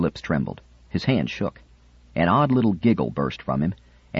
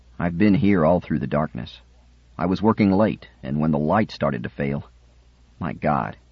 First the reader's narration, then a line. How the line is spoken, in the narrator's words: said